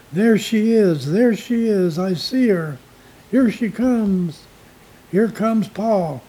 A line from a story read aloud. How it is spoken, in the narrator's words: exclaimed little George in excitement